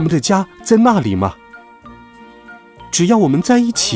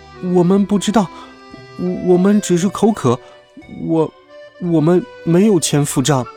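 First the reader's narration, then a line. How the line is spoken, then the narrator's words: Stammering. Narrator (Chinese): 小鼹鼠结结巴巴地说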